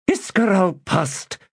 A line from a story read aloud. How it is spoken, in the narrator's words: snapped Sordico Quam